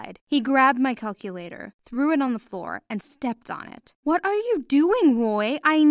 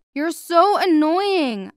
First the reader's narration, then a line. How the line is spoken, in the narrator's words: I screamed